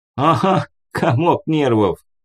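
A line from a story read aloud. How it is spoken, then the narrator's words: Chuckling. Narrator (Russian): хохотнул друг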